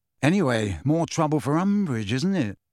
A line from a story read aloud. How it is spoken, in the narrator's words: said Harry in a satisfied voice